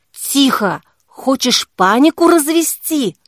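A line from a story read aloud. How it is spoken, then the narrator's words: Hissed. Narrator (Russian): прошипела Кира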